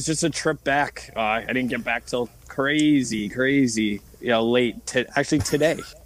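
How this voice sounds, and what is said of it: Hoarse, deeper than usual voice. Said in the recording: “tell by my voice, uh, it's a little you know deeper than usual. So I, I kind of lost my voice”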